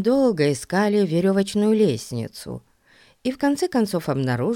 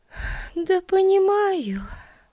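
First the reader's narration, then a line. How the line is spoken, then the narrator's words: Sighed. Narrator (Russian): вздохнула Бетси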